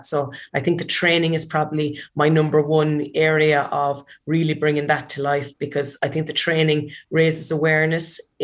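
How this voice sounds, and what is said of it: Irish Kerry accent. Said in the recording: “that Kerry accent”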